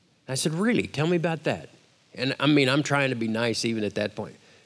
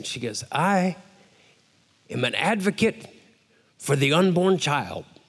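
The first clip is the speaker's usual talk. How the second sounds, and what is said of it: Imitated African accent. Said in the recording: “her little African accent”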